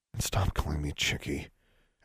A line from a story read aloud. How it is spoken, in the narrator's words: Alexandra muttered to the empty space he'd left behind